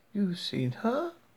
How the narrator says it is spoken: Joan said softly

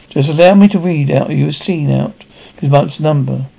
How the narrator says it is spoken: he pleaded

